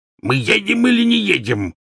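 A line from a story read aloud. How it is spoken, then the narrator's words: Barking. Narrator (Russian): рявкнул дядя Вернон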